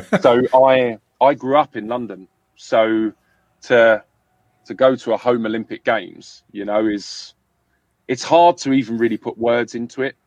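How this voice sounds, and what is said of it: London accent. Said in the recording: “mine is a London accent”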